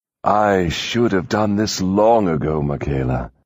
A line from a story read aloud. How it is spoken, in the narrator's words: purred